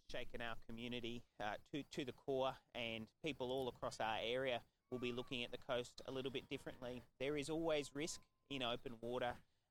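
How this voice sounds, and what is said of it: Australian accent. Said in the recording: “I love the Australian accent.”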